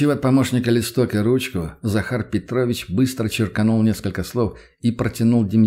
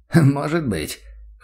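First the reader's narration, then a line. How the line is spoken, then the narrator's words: Snort. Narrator (Russian): хмыкнул Прохоров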